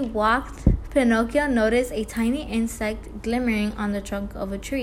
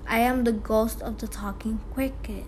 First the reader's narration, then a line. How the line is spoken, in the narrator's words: answered the little being in a faint voice that sounded as if it came from a far away world